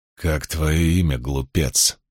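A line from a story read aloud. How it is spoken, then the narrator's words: Menacing hiss. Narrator (Russian): прошипел предводитель воинов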